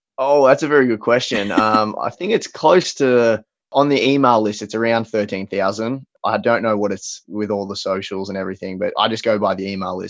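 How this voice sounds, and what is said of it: Australian accent. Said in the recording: “he is an Australian, which you can obviously hear from his accent”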